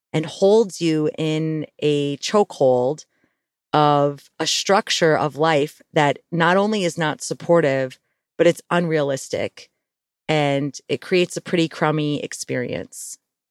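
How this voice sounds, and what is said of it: Slightly crackly, rough voice. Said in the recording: “I was waiting for my voice to get a little better. The weather here has been kind of dry, so I'm a little crackly ... my voice is not perfect today”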